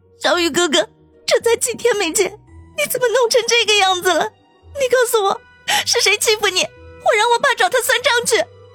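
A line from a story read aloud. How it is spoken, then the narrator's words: Choked, tearful. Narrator (Chinese): 后者哽咽的说道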